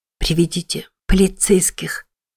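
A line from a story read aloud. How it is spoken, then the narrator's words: Hoarse rasp. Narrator (Russian): прохрипела Мэтти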